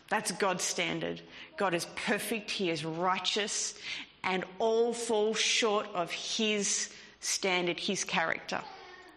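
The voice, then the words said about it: Broad Australian accent. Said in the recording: “my broad Australian accent”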